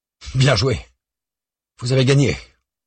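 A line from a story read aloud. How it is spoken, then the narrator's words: Bitter. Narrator (French): glisse d'un ton amer Jean Dupeux à Pontchartrain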